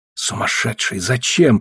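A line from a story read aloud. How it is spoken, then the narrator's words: Whispering. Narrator (Russian): прошептал я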